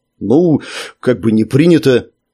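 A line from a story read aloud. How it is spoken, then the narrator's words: Quiet, uncertain. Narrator (Russian): сказал он негромко и неуверенно, решив, что жаб его уже не слышит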